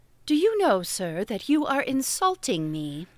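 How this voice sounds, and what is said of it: Noble, thrilling dramatic voice. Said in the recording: “When you get into that noble attitude and speak in that thrilling voice”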